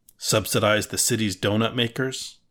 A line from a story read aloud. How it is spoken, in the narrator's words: Bresler sighed